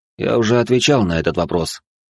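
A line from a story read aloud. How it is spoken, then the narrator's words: Calm answer. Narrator (Russian): спокойно ответил я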